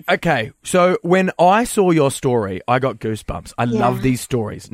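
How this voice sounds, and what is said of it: Australian accent. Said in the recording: “I hope you can understand our accent.”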